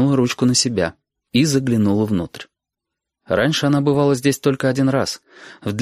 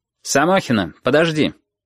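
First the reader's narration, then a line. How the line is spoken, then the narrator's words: Sharp. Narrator (Russian): резко сказал Портнов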